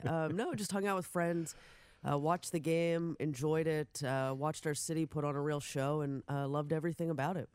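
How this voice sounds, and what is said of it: Worn-out, raspy voice after partying. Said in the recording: “You kind of sound like you're recovering ... I'm trying to do my best Patrick Mahomes impression ... I sound like I had a lot more fun than I did”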